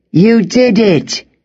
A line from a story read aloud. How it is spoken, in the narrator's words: Hugh shouted